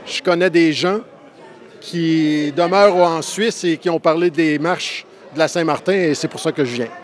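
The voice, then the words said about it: Canadian French accent. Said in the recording (French): “Vous avez un accent? C'est pas jurassien. ... J'imagine Outre-mer. ... Oui, du Canada.”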